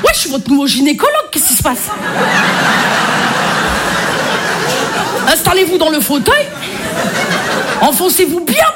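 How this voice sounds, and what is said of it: Marseille French accent. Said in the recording (French): “je m'y connais en accent. Hein, je suis marseillaise ... l'accent marseillais se suffit à lui-même”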